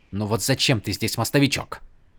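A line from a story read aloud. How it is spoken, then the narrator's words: Sharp question. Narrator (Russian): резко спросил Адалин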